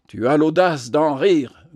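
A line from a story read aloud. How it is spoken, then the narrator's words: Growled. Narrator (French): gronda-t-il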